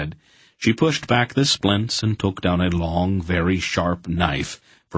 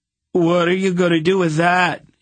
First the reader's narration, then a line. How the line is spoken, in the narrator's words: he demanded shakily